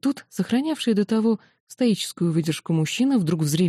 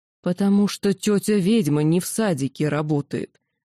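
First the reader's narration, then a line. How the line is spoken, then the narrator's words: Father's growl. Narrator (Russian): прорычал отец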